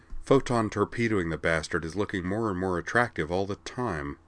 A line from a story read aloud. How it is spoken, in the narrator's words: muttered under her breath